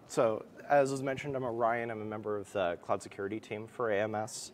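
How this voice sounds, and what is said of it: Slightly hoarse, croaky voice. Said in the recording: “You can hear that I have a little bit of a frog in my throat.”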